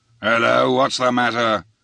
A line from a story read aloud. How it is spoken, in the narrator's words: here came growling from a forecastleman, awakened from his deck doze